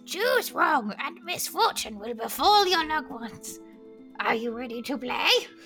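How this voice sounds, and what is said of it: Creepy demon character voice. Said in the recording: “do my demon voice”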